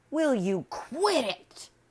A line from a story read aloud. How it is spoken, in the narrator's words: Stuart screamed